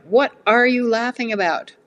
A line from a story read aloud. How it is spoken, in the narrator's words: I blurted out